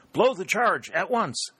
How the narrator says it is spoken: Colonel Winchester shouted to his trumpeter

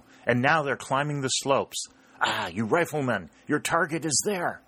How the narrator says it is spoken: cried the colonel

